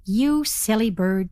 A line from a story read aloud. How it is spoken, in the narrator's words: said the raven